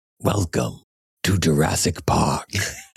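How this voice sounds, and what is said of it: Don LaFontaine-style movie trailer voice. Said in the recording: “trailer voice ... sort of Don LaFontaine trailer voice”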